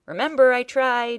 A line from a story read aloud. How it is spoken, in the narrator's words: yelled back